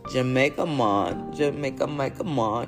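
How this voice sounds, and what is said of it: Put-on Jamaican accent. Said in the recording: “y'all like my Jamaica Mon accent”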